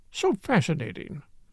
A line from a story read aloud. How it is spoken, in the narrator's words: murmured